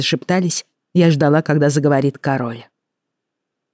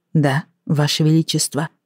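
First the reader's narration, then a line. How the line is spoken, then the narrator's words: Calm reply. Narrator (Russian): спокойно ответила я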